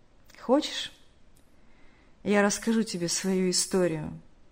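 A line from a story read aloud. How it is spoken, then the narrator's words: Heavy-sighing speech. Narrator (Russian): Тяжело вздохнув, сказал тот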